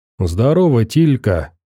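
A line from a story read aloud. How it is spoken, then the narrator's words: Calm. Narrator (Russian): спокойно сказал Фил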